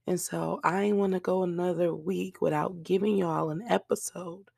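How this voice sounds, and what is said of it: Hoarse, nearly lost voice. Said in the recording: “I sound a complete mess, okay? ... My voice is still gone.”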